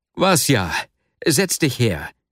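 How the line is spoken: Male call. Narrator (German): rief er schließlich

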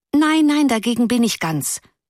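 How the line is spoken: Pitying call. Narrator (German): rief eine andere in mitleidigem Ton

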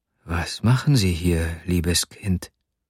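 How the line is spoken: Whispered question. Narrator (German): fragte er flüsternd

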